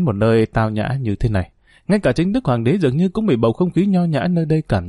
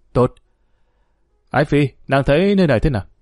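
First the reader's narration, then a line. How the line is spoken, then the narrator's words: Smiling. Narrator (Vietnamese): Y mỉm cười nói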